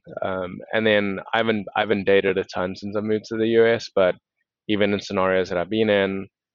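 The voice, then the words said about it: Speaks with a noticeable accent. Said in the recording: “They don't know I have an accent.”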